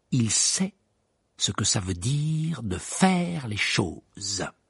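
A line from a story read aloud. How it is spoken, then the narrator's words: Impressive declaration. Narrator (French): déclara George d'un ton impressionnant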